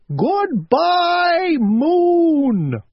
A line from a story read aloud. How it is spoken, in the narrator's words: shouted as loudly as he could